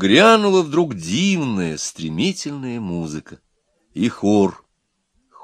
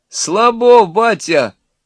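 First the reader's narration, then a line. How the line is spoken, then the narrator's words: Young voices shouting. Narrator (Russian): крикнули из компании молодых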